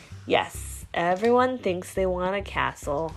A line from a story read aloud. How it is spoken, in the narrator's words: Rocky sighed